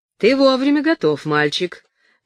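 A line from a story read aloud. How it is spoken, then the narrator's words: Cheerful exclamation. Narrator (Russian): весело воскликнул Дэвид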